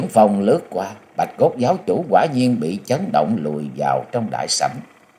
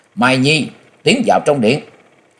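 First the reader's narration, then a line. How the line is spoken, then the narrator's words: Loud shout. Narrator (Vietnamese): Bà quát lớn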